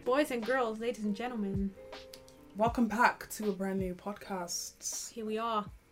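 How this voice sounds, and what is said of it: Put-on British accent. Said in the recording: “I don't know why I'm talking in English accents ... or a British accent. ... Very British, honey. you Very British.”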